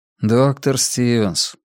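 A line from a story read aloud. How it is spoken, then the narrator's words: Sad, smiling. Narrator (Russian): печально улыбнулся Анджели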